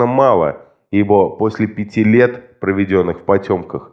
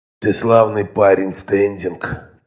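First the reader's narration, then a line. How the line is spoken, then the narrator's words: Hoarse wheeze. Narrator (Russian): прохрипел он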